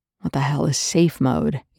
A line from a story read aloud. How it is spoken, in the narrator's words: Young growled